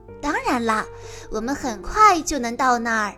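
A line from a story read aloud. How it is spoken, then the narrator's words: Smiling. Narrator (Chinese): 艾薇微笑着说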